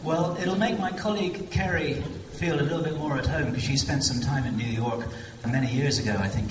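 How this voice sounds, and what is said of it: English accent. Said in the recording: “you're hearing an English accent here ... I apologize for my accent.”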